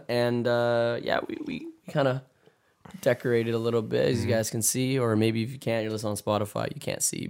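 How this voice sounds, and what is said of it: Raspy, hoarse voice. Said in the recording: “raspy ... My voice is also really messed up. ... it was like laryngitis or something. ... my voice kind of sounding weird”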